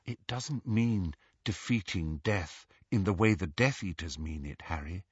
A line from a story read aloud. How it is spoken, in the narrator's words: said Hermione, her voice gentle